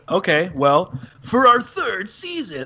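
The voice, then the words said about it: Imitates another person's voice. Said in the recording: “my Jeff Probst impression.”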